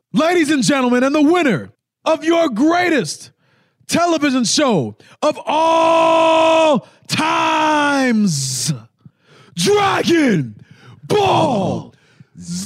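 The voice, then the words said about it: Booming announcer voice. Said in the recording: “You got the announcer voice. You're doing VO work. ... Announcer voice.”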